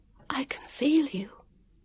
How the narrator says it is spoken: said, and found she was whispering

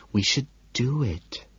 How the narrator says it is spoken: she says softly

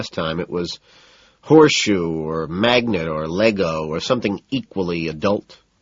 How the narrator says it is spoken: Price sneers

